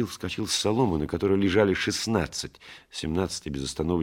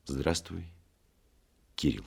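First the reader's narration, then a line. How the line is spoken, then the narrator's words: Quiet, after a pause. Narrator (Russian): тихо сказал, помолчав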